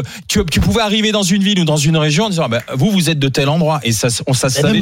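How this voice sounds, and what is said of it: Usual voice. Nothing is said of it.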